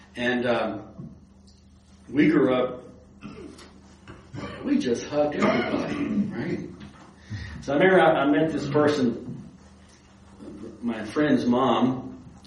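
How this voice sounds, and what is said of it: Slight Texas accent. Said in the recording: “you can probably tell I still have some of my accent left from growing up in Texas.”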